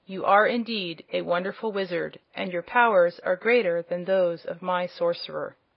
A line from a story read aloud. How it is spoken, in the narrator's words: the prince said, in his cold, calm voice